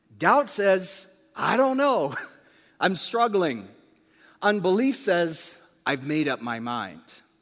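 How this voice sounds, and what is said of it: American accent, English-born speaker. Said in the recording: “I was actually born in England, you'd never guess it, based on the accent. Although I still do say tomato ... everything else has been Americanized”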